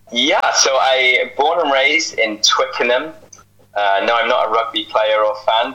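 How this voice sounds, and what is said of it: Accent that is not Canadian. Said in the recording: “that's not a Canadian accent”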